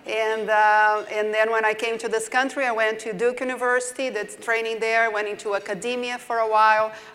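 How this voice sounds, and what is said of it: Brazilian-accented English. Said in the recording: “I did my training in Brazil originally, so that's why you hear my southern accent.”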